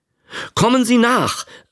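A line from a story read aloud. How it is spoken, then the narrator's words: Called out. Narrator (German): rief er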